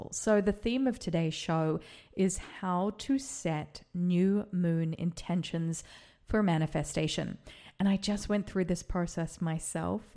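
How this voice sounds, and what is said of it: Slightly excited, energized voice. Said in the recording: “you can probably hear in my voice that I sound a little bit excited about it because it has amplified my energy right now.”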